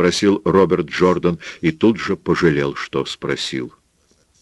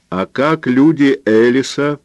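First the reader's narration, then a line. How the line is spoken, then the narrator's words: Shout into deaf ear. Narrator (Russian): крикнула Пилар в ухо глухому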